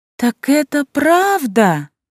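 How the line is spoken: Exclaimed. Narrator (Russian): воскликнула Илана

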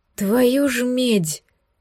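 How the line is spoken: Loud exhaled exclamation. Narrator (Russian): шумно выдохнул Эдвин

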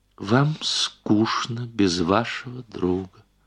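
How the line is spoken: Plain. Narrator (Russian): сказала она

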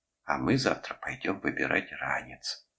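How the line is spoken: Conspiratorial tone. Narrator (Russian): Она заговорщицким тоном произнесла

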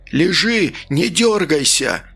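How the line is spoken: Disbelieving yell. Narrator (Russian): заорал Иванов, не веря своим глазам

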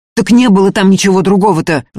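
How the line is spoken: Loud yell. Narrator (Russian): Заорал Ефим на весь берег

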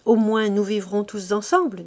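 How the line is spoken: Plain. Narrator (French): dit-elle

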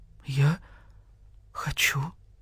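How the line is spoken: Barely audible whisper. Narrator (Russian): еле слышно прошептал заяц

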